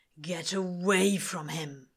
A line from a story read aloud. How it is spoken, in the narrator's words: Crowley snarls